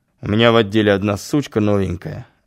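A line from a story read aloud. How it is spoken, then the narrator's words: Thoughtful. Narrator (Russian): задумчиво проговорил Нестеров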